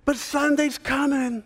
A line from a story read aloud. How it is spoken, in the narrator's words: the whole congregation screams back